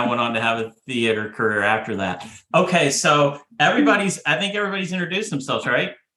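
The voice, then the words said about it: Slight country twang. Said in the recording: “You do have an accent. ... You got a little twang. ... it's getting twangier too”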